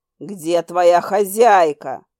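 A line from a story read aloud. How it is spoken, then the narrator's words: Demonic growl. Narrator (Russian): снова прорычал демон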